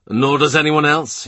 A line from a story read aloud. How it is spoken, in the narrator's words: he said